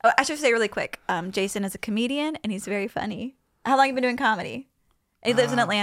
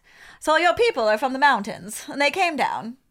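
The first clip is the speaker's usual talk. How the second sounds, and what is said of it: Put-on mid-Atlantic accent. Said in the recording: “my mid-Atlantic accent”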